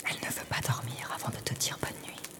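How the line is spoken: Soft murmur. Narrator (French): murmure-t-elle doucement

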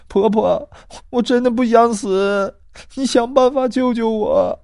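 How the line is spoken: Girl crying. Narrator (Chinese): 女孩哇的一声哭了起来，她哭着说

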